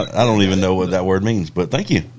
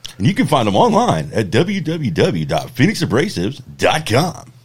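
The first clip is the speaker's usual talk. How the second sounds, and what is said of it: Projected, inflected announcer-style delivery. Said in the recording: “I like the inflection you put on your voice in there ... from the gut ... Projecting your voice”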